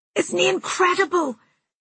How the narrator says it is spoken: a girl beside me screamed

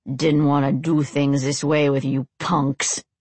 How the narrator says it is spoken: Rob growled

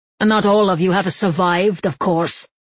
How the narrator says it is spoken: Domenico said savagely

